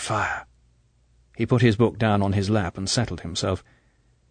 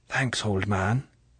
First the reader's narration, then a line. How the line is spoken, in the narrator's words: said Captain Nash softly